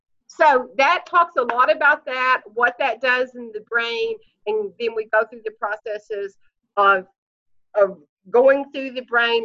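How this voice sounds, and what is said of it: Southern US accent. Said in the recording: “I already had a southern accent ... my accent is getting deeper and deeper into my southern roots”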